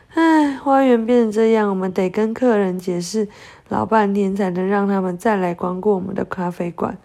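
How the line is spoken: Sighing. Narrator (Chinese): 雷亚叹了一口气说

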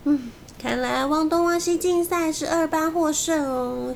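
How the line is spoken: Sighing. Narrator (Chinese): 马伊同学叹了一口气

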